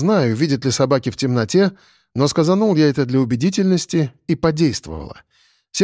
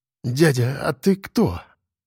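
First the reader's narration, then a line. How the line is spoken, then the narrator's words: Muttered. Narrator (Russian): пробормотал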